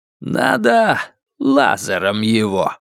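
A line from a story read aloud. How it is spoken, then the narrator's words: Growl. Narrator (Russian): рыкнул он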